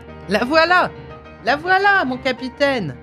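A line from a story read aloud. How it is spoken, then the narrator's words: Ogre exclaiming. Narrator (French): s'écria le plus laid des ogres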